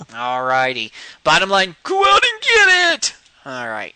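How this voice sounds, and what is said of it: Wrestling announcer style voice. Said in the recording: “wrestling announcer voice”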